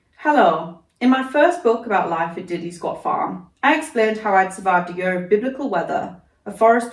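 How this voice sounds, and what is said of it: Northern English accent. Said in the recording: “Can't do a Clarkson accent, I'm afraid. So you're going to have to live with this northern gal.”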